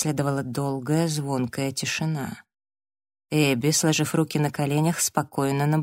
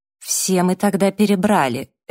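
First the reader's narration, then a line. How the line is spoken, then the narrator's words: Sharp cutting-off. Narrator (Russian): резко оборвала его Эбби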